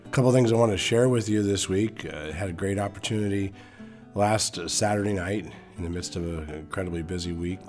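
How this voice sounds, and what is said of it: Slightly hoarse voice. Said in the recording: “I'm dealing with a little bit of a bug, and so my voice is a little hoarse”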